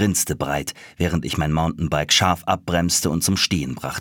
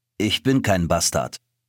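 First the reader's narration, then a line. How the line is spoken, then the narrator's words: Dry reply. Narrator (German): erwiderte er trocken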